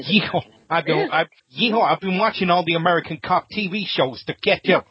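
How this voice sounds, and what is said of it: Deliberately bad fake American accent. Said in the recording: “Yeah. I did that deliberately bad... you sound like Joe Pesci”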